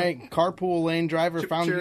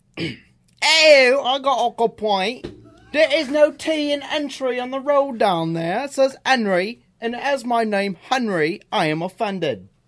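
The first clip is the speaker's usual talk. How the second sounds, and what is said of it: Bad put-on British accent. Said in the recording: “you gotta do your British voice ... That was the worst accent I have ever heard in my entire life.”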